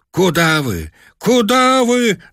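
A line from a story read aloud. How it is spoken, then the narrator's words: Shouting in unison. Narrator (Russian): закричали мы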